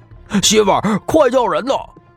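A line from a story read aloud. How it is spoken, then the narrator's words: Shouting. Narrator (Chinese): 王村长的儿子大喊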